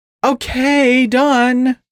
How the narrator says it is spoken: The Husky exclaimed

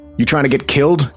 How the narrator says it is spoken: Keith asked sharply

